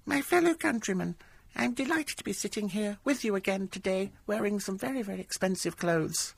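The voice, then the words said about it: Imitates another person's voice. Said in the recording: “It's uncanny, isn't it? ... it's almost as if she walked into the room ... perhaps I can't add the Queen to my repertoire of impersonations.”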